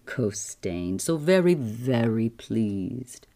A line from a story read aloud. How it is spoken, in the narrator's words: purred the voice